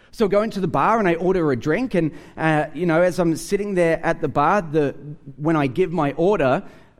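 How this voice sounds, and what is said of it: Australian accent. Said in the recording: “a guy sitting next to me hears my accent. He says to me, "Are you from Australia?"”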